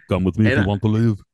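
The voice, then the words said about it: Arnold Schwarzenegger impression. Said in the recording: “your Arnold impression”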